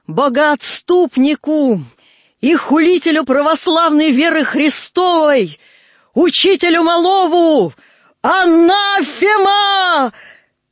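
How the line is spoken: Frenzied grief-stricken shout. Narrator (Russian): крикнула в ожесточении скорби, себя не помня

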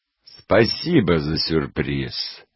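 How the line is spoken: Husband's gloomy reply. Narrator (Russian): мрачно ответил муж

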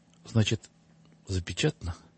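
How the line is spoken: Quiet, timid, crushed. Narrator (Russian): тихо уже, робким и убитым тоном спросил

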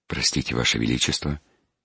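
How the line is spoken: Respectful, quiet, forcedly calm. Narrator (Russian): почтительно и тихо проговорил, стараясь казаться как можно спокойнее

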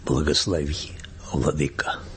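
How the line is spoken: Quiet half-sung. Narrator (Russian): кто-то из них негромко, но наполовину сказал, а наполовину пропел

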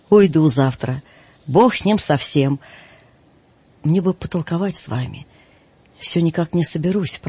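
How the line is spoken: Quiet strained speech. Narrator (Russian): проговорил Преосвященный тихо, через силу

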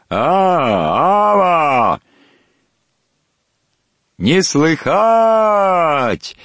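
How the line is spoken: Loud singsong answer. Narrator (Russian): ответил громко и нараспев Пантелей

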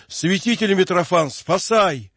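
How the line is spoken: Desperate cry. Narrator (Russian): Мотовилов успел только крикнуть

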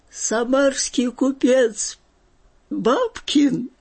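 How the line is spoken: Laughing, high-pitched voice. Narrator (Russian): говорил он хохоча и от хохота высоким голосом

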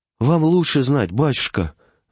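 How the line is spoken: Peasant woman sighing. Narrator (Russian): вздохнула баба

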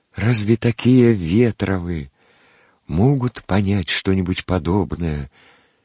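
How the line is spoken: Timid interjection. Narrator (Russian): Робко вставил он мимоходом

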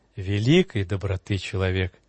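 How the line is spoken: Tender priest. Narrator (Russian): Отец Иоанн нежно

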